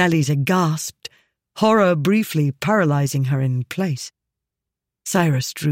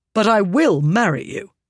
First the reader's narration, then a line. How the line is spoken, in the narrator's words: he said sharply